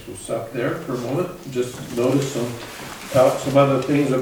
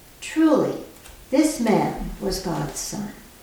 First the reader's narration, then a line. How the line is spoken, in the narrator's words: the centurion, who stood facing him, saw that in this way he breathed his last, he said